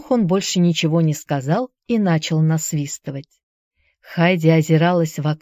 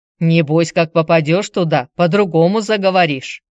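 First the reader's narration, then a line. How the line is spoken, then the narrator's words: Grumbling. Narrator (Russian): пробурчал пекарь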